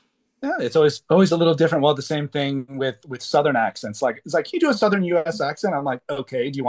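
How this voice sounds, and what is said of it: Usual voice. Nothing is said of it.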